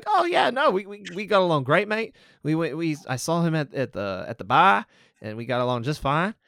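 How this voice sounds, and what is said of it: Bad fake Australian accent. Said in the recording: “that's my bad Australian accent”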